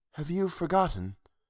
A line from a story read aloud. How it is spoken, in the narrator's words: She said, dreamily